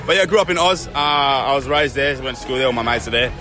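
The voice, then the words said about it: Australian accent. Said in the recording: “Obviously still got the accent as well ... Still got the Aussie accent, yeah. The Aussie accent has stayed with me when I speak English.”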